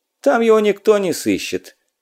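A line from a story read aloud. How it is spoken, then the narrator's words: Grumbling. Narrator (Russian): проворчал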